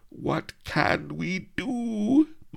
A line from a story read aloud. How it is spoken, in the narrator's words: moaned Mellifluo